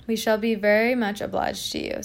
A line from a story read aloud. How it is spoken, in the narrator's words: said the impostors